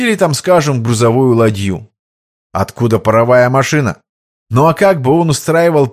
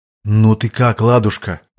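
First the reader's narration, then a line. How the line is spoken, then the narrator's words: Caring, tender. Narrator (Russian): заботливо поинтересовался князь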